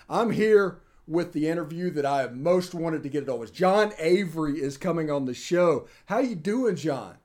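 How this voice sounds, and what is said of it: Excited, energetic voice. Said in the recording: “I'm unbelievably excited. You can tell by my voice how excited I am”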